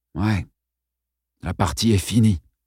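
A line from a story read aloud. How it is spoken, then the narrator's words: Weary, disgusted reply. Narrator (French): répondit-il d'une voix lasse et dégoûtée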